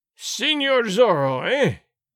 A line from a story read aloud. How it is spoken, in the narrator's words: Gonzales cried in a terrible voice